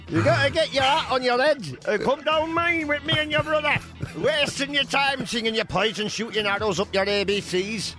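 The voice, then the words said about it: Put-on Sheffield accent. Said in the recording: “Or whatever Sheffield accent is.”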